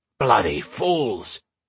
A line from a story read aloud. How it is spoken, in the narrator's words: Goggin growled